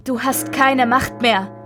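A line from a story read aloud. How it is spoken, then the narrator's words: King screaming. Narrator (German): König Richard schrie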